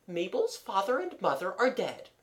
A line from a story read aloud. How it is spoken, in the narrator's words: said the aunt calmly